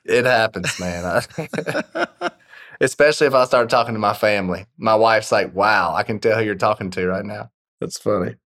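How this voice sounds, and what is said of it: Strong Southern American accent. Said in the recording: “The most southern thing about me is blank. ... Probably still my accent. And it's died down a lot since I was a kid and since I moved out of Georgia. But especially if I've had a couple drinks or it's pretty late at night, it starts to get pretty thick ... It's still plenty strong”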